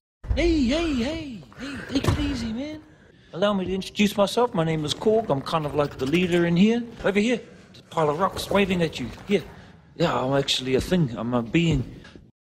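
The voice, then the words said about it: Soft-spoken New Zealand accent. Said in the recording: “a soft-spoken New Zealander like he did for Korg ... really soft-spoken New Zealand accent”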